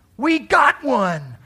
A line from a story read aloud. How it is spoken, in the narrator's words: I became euphoric and giddy, and I yelled at the top of my lungs